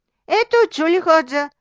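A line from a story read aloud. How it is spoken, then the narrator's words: Laughing. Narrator (Bulgarian): засмял се Петър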